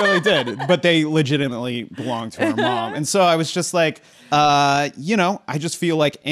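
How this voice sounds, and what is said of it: Usual voice. Nothing is said of it.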